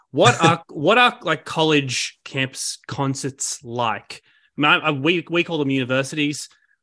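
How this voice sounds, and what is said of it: Australian accent. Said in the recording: “I'm sure you can tell that from my accent that I'm Australian”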